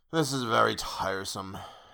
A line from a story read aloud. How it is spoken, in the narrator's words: he mutter again